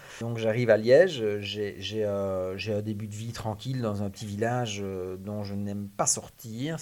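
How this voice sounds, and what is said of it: Belgian Liège regional French accent. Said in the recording (French): “Ça s'entendra certainement ... un peu à l'accent.”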